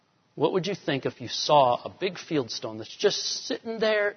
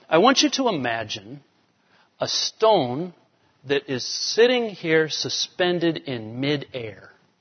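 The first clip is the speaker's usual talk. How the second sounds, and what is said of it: British accent impression of John Stott. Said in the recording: “he said it like this, I want you to imagine, you know, this British accent”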